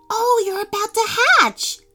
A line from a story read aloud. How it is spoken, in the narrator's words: Teddy said excitedly